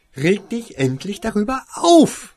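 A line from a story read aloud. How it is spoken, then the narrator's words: Angry hiss. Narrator (German): fauchte Winona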